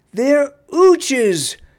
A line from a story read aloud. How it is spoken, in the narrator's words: She shouted, the mother clenched teeth